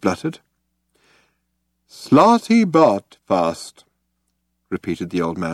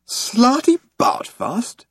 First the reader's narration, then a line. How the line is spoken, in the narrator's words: exclaimed Arthur